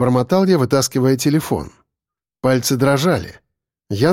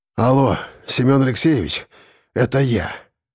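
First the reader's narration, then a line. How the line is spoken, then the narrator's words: Hoarse, breathless. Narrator (Russian): сказал я на выдохе хрипло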